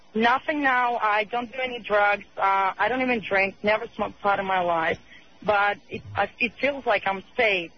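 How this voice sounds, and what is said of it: Russian accent. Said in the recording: “Are you Norwegian or something? What is your accent? ... I'm Russian.”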